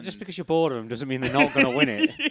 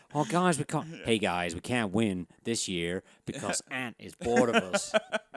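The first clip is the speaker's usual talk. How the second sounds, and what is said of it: New England impression voice. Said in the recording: “my New England impression”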